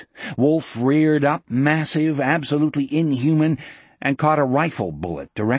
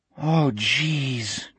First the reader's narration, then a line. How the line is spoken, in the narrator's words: Jack groaned